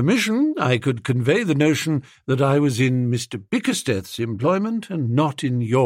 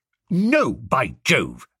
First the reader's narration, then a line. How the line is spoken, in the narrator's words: said firmly